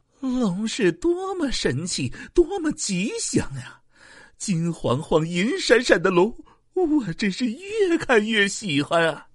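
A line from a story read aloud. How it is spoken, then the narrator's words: Loud laughter. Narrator (Chinese): 叶公大笑道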